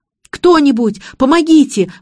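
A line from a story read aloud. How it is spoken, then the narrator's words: Screaming. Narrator (Russian): вопил Игорь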